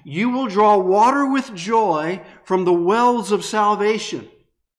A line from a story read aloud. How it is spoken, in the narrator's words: the people would shout